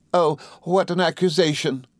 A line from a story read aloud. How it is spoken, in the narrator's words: exclaimed Dora